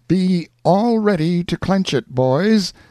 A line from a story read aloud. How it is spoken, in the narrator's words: cried out Pathfinder